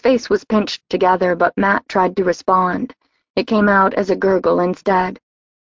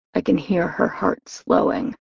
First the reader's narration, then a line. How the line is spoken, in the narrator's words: Kellen as he growled